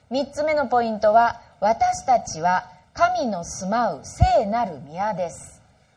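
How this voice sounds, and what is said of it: Stern voice that sounds angry. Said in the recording (Japanese): “My wife's voice, she's not angry. ... 私怒ってるみたいに聞こえますか? ... いつもこの声で”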